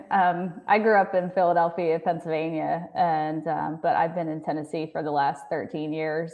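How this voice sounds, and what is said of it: Soft Philadelphia accent, slight twang. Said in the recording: “of a twang ... my accent has softened quite a bit in the 13 years that I've been down here”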